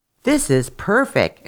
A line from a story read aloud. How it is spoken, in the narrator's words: exclaimed the rich man